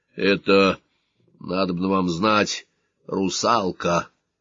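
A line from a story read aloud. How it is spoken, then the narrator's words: Hoarse. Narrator (Russian): хрипло сказал капитан Зо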